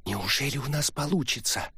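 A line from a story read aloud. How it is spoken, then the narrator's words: Quiet question. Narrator (Russian): тихо спросила Амин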